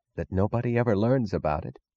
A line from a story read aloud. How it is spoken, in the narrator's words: Wesley Mooch was whispering